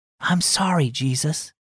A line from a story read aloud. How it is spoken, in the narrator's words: whispered